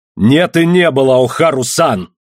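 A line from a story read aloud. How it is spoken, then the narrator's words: Furious shout. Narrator (Russian): яростно крикнул я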